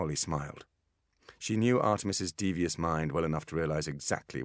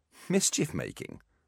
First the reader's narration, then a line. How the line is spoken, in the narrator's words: scoffed Holly